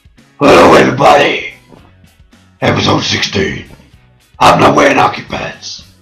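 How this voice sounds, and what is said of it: Gruff Batman voice, like wrestler. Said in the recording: “Maybe I should do like a Batman voice ... Should I do the Batman voice? ... Christian Bale ... It sounded like a fucking like an 80s WWF wrestler.”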